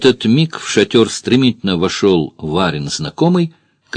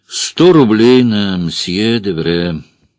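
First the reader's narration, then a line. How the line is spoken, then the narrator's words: Bored voice. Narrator (Russian): Эраст Петрович скучным голосом сказал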